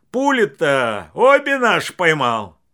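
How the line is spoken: Forced cheerful shout. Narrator (Russian): Василий нарочито весело крикнул вслед

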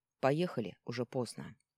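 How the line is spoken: Icy tone. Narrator (Russian): Он ледяным тоном произнес

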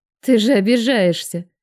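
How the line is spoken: Mocking. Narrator (Russian): насмешливо бросила я

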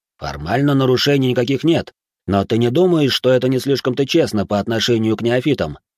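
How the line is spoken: Plain, man. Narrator (Russian): спросил мужчина

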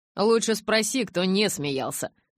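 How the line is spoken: Grumbling mutter. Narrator (Russian): пробурчал Джейк

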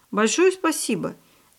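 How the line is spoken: Polite, happy boy. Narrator (Russian): Вежливо поблагодарил мальчик и радостно

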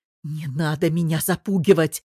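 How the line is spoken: Snake-like hiss. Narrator (Russian): шипела Вера, точно змея

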